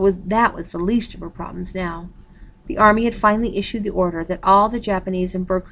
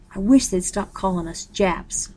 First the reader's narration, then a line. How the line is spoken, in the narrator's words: she murmured